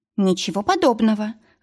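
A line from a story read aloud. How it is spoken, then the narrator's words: Irritated objection. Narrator (Russian): раздраженно возразила Маргарет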